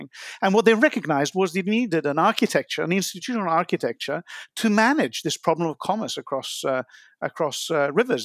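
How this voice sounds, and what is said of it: Non-American accent. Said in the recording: “you're American, and I obviously am not, as you can tell from my accent”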